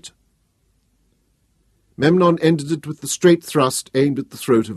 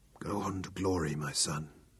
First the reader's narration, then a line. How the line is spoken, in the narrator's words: Thanos whispered